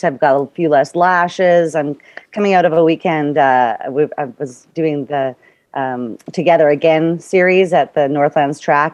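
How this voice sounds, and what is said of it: Hoarse voice. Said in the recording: “I've got a hoarse throat”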